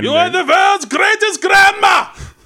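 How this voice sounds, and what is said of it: Screamed fake German accent. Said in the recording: “screaming nice things in a German accent ... it sounds vaguely threatening”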